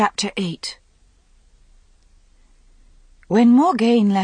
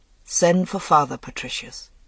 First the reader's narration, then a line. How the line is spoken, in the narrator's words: said, with a sigh that seemed ripped from the very depths of his being